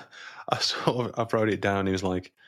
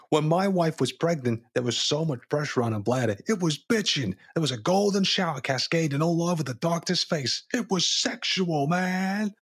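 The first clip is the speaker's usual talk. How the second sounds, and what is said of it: Put-on Boston accent. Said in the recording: “let me get my best Boston accent.”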